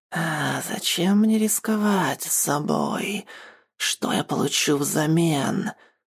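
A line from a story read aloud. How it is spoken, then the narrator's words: Eerie rasping voice. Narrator (Russian): жутким голосом прохрипела Навья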